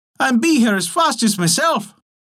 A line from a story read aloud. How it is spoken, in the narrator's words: cried